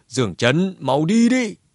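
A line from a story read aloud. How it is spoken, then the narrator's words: Roar. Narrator (Vietnamese): Lão cửu gầm lên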